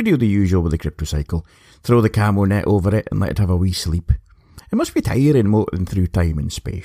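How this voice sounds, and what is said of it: Usual voice. Nothing is said of it.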